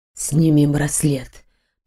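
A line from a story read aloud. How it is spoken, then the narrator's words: Whisper. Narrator (Russian): прошептал он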